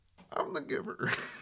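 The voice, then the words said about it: Jeff Bridges impression. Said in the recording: “my way to do a Jeff Bridges impression”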